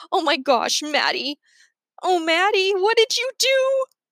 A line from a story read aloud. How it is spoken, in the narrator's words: Drinker cries